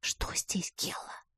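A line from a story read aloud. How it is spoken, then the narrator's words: Whispered question. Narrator (Russian): спросила шепотом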